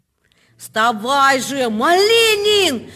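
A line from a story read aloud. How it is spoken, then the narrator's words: Frantic trembling yell. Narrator (Russian): Завопил я не своим голосом, весь дрожа от нетерпения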